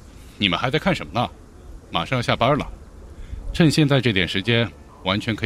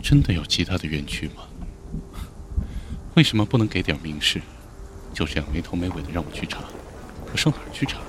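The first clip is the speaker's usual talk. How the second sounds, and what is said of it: Quiet muttering. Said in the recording (Chinese): “小声的嘀咕”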